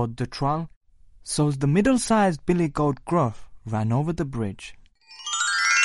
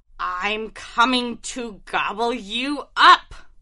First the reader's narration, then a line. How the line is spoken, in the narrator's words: roared the troll